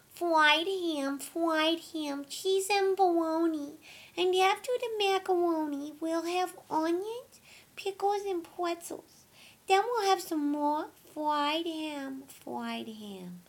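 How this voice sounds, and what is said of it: Baby voice. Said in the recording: “Baby accent, a whole lot worse.”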